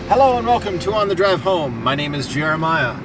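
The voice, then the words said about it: Excited announcer-style radio voice. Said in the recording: “I was trying out my radio voice ... You just sound more excited than I am.”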